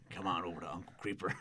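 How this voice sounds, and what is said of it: Raspy Beetlejuice-style character voice. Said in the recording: “you giving a Beetlejuice voice”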